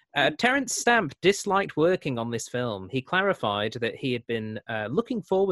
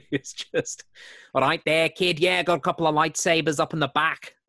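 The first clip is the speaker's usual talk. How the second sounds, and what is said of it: Poor put-on Mancunian accent. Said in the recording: “That's as close to a Mancunian accent as I can get. I apologize to everyone for that.”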